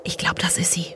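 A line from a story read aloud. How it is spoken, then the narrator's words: Whispering. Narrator (German): flüsterte eine Stimme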